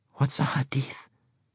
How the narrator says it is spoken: Nick whispered in Yusef's ear

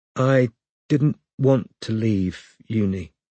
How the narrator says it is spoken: said Robin slowly, her head swimming

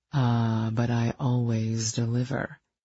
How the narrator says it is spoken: he purred

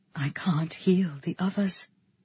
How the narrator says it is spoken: she whispered to me

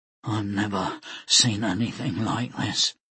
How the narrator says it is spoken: Jackal whispered

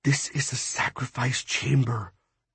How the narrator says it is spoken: Brooks whispered

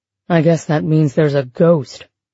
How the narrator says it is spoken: Raj mumbled

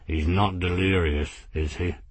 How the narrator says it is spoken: mumbled out of the corner of his mouth

